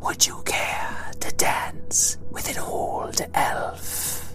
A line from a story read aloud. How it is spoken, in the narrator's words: said the Mist Elf teacher in her wispy voice